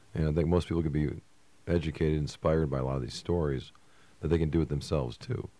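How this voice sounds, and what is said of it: Tired, fading voice. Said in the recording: “My voice is starting to die out here.”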